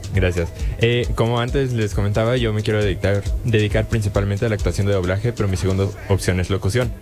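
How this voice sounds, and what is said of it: Striking radio announcer voice. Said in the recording (Spanish): “¡Ay, qué voz! ... Voz de locutor.”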